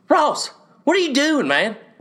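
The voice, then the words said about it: Impression of a football coach. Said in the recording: “One of my best impressions. I'm so good at coach impressions.”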